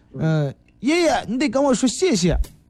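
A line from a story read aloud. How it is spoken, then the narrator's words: Loud young boy. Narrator (Chinese): 一个七八岁的一个小男孩 那个学生大声说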